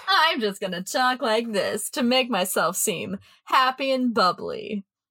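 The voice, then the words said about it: Cheesy, bubbly radio-host voice. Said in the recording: “that cheesy radio voice”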